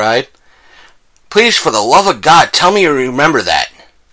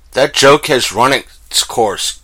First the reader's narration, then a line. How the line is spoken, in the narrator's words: Kevin said coldly